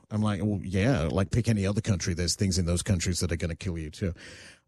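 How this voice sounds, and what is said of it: Australian accent. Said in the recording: “because they hear my accent, they're like, oh, you're from Australia?”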